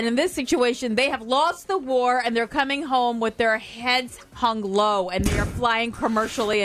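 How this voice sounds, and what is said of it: Usual voice. Nothing is said of it.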